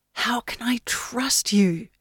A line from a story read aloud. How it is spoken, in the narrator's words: Yenny whispered into the pregnant stillness of Bunda Ford